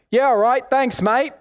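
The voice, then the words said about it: Put-on British accent. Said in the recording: “I try and respond back with this British accent”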